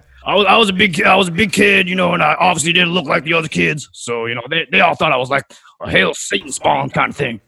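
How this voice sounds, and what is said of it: Gravelly Deep South accent. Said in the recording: “that accent ... You picked this up in the South, the Deep South ... gravelly”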